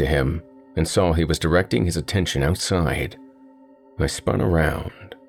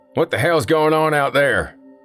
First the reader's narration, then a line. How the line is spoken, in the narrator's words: one of the patrons said loudly